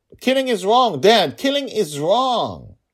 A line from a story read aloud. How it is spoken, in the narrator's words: she yelled